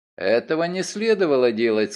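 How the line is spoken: Calm. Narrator (Russian): сказал он спокойно

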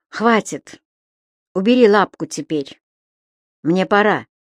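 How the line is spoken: Curt, through clenched teeth. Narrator (Russian): Сквозь зубы бросил Векшин

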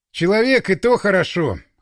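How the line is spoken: Snorted. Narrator (Russian): хмыкнул

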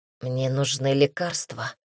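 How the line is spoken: Breathless mutter. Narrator (Russian): едва дыша пробормотала Эллен

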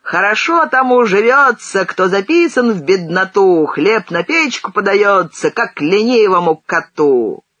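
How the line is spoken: Drunken bawled ditty. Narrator (Russian): пьяный серган заорал частушку

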